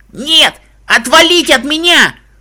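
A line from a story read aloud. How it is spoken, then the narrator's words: Mare screaming. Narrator (Russian): закричала кобыла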